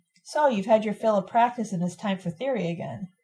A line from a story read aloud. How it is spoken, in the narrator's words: Pat said calmly